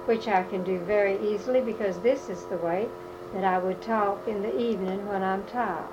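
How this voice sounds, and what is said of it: Natural Southern US accent. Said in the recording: “coming from the South ... I would certainly drop my I and G's, and I would not put E-R's on words. And this is not a put-on Southern accent. ... the Southern accent which I have just left a moment ago”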